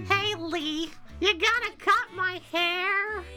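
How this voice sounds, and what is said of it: Imitates a young girl character's voice. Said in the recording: “my impression of uh, what's her name from Uncharted or not Walking Dead ... Clementine from you The Walking Dead”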